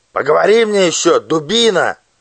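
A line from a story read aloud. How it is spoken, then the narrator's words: Angry shout. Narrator (Russian): Фельдшер вспылил и крикнул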